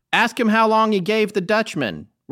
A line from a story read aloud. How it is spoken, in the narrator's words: simply yelled out